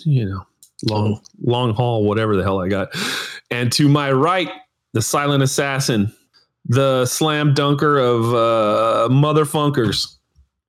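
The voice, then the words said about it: Sick-sounding voice. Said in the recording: “you can hear it in my voice.”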